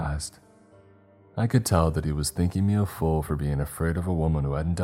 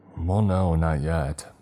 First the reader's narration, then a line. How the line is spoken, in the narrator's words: said through gritted teeth